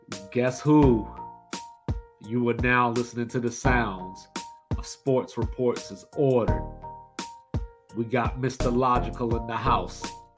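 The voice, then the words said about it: Announcer-style radio voice. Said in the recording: “That's my radio voice”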